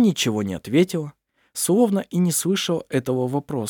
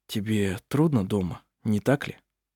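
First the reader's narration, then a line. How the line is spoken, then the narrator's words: Quiet. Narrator (Russian): он тихо сказал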